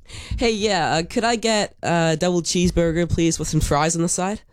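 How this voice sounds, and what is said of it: Put-on American accent. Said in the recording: “Can you order a cheeseburger with an American accent for us?”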